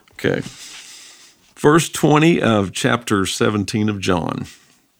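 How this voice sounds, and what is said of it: North Carolina accent. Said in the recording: “he's got this funny accent ... From North Carolina”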